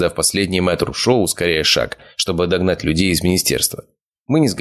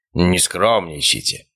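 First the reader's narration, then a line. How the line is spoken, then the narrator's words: Scoffing snort. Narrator (Russian): хмыкнул Обухов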